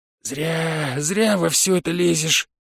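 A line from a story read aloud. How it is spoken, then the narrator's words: Grumbling demon. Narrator (Russian): бурчал бес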